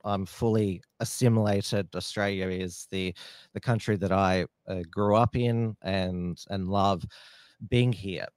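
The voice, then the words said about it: Australian accent. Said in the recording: “I speak fluent English with an Australian accent”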